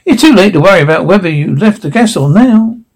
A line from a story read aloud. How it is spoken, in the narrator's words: said Max, beaming cheerfully at them